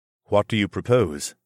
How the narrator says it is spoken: Zoclan asked

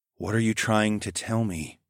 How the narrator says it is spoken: I breathed

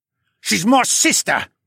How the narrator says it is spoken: he snarled

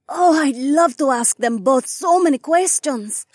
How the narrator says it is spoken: Sky chirped

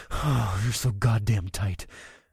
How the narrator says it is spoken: I moaned

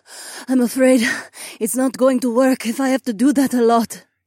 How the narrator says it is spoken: Jessamine gasped

